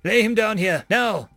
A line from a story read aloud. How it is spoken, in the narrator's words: I yelled